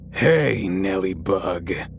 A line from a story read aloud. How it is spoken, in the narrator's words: from right behind me, I heard in a deep, gravelly voice